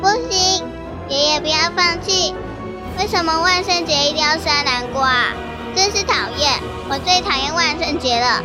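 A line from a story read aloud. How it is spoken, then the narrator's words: Sad thin pouting cry. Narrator (Chinese): 南瓜妹妹难过的撅着嘴巴，用难过的声音细细的喊着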